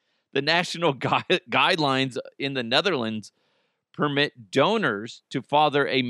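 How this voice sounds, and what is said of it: Usual voice. Nothing is said of it.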